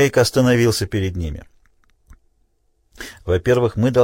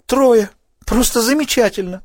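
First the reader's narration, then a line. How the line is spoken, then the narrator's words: Exclaiming. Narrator (Russian): воскликнул Селли Энн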